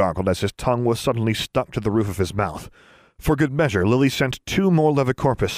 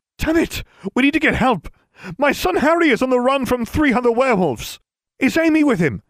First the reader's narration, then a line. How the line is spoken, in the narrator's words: Greg asked urgently